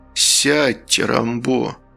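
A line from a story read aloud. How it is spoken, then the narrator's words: Very quiet. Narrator (Russian): Король сказал это очень тихо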